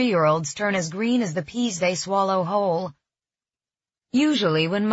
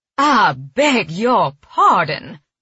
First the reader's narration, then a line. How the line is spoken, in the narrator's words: Mother said in an incensed tone